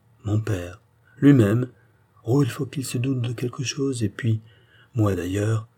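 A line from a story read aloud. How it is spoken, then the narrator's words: Sighing. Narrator (French): ajouta Pitou avec un soupir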